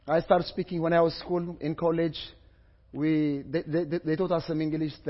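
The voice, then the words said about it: Ethiopian-accented English. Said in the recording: “sorry about about my accent. So English is not one of our language. In Ethiopia”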